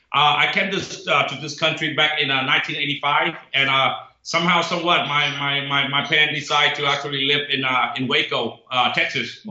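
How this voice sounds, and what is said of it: Foreign accent speaking English. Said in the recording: “you can tell by my accent, I'm not from this country.”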